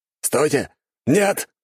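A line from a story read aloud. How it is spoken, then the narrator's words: Knight shouting. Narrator (Russian): прокричал рыцарь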